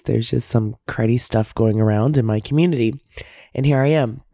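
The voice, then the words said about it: Voice sounds a little sick. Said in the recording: “I am a little sick, so you can hear it in my voice.”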